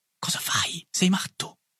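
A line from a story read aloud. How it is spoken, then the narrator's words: Whisper. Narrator (Italian): mi sussurrò Boulanger, che era mio compagno di banco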